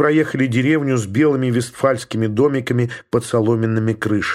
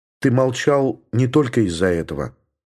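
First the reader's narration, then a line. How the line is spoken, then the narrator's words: Calm. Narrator (Russian): спокойно сказала Елена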